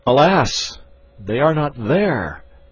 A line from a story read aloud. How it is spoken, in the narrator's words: sinking down motionless, I cried